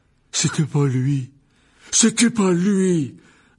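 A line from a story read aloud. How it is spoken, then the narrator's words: Young man roaring. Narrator (French): rugit le jeune homme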